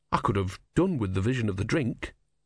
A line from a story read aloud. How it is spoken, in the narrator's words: he said wearily